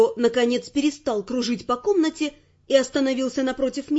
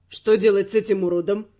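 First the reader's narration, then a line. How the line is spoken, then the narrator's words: Gloomy question. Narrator (Russian): мрачно спросил он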